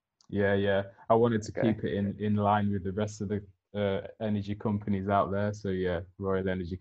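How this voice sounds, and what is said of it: British accent. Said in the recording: “first person from the UK ... across the pond ... you got to love that accent he has. I mean, especially for us Americans”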